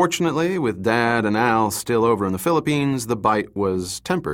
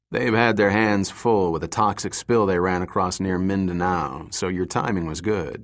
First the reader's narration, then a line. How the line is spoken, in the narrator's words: Yeager said